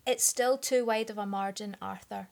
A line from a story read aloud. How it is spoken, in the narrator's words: his father said, his tone broaching no argument